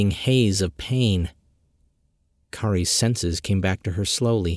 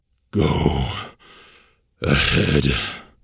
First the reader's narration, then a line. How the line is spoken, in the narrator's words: the dragon rasped